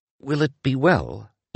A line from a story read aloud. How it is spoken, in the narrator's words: Inglis asked timidly